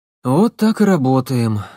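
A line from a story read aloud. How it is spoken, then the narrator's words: Sighed. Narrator (Russian): вздохнул Мерзликин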